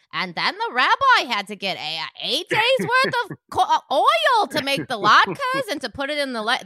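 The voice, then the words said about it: Put-on accent imitating cartoon characters. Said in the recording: “I'm not liking the accent ... it's not my accent. My accent, I'm just doing an impression of the show.”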